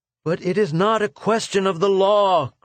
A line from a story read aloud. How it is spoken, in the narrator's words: cried Arvidin